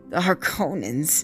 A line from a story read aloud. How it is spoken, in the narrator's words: He sneered